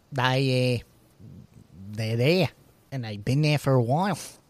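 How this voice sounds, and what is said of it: Bad put-on New Zealand accent. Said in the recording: “I don't know if that's a good New Zealand accent or not... It's probably offensively bad”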